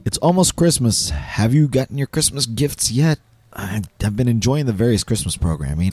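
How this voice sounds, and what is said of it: Hoarse, strained, partly lost voice. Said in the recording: “apologize for my voice. I lost it earlier this week, and it just has not returned yet.”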